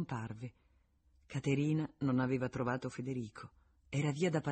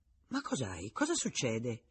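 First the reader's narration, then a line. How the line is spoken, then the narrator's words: Exclamation. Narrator (Italian): esclamò suo padre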